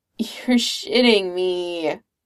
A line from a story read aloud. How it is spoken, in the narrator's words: Clint groans